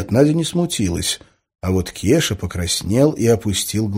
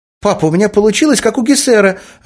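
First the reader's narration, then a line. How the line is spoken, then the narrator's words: Joyful. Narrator (Russian): радостно сказала Надя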